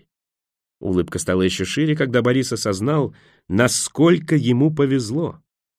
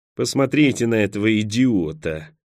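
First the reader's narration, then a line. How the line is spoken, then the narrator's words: Grumbling. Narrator (Russian): пробурчал русский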